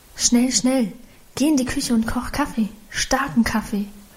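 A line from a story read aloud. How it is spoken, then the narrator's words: Murmured to husband. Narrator (German): raunte sie ihrem Mann zu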